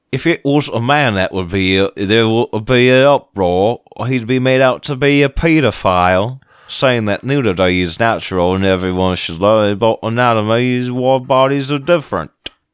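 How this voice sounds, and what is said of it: Attempted British accent. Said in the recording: “So I'm going to say this in a British accent the best I can. ... I try to do like a weird...”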